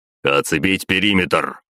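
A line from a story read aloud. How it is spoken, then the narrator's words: Barking. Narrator (Russian): рявкнул Батуми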